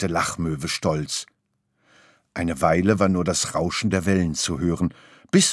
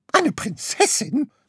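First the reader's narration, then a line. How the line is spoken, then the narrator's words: Shrieking. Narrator (German): kreischte Graugans auf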